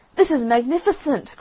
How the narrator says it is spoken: cried the Rocket

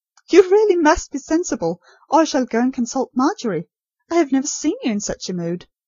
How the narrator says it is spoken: said Nurse Rosemary, laughing in spite of herself

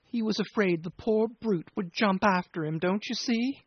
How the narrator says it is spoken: pursued with a quaver

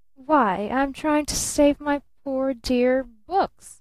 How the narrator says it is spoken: she drawled

